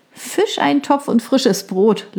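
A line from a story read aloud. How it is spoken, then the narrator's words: Laughing. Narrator (German): lachte sie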